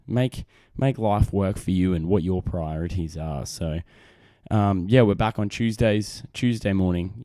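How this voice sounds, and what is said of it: Australian accent. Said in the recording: “my great Australian accent, because I'm a man from down under”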